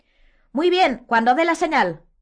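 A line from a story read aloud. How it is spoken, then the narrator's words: Shout. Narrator (Spanish): gritó Angelina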